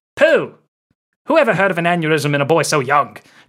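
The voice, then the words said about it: Weak attempted Scottish accent, somewhat British. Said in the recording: “That's not a Scottish accent, I know, but that's as best I can do. ... At least you went somewhat British.”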